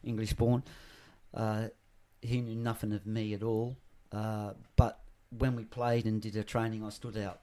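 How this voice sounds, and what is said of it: Australian accent. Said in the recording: “I'm an Australian accent, but I'm Pommy born.”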